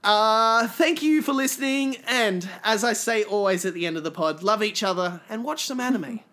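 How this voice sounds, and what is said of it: Australian accent. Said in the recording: “It's good having an Aussie... people speak my accent back at me”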